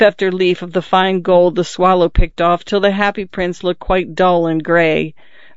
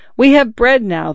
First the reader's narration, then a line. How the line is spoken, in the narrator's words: they cried